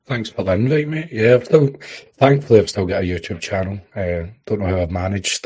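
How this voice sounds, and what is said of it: Strong regional accent. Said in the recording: “I have a stronger accent”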